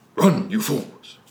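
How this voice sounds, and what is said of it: Gandalf character voice impression. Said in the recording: “He's doing it in your best voice. ... That's pretty good, actually.”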